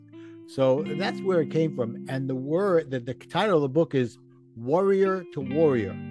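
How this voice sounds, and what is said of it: Brooklyn accent. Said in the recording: “my Brooklyn accent ... it's worry like you're a worried person to warrior”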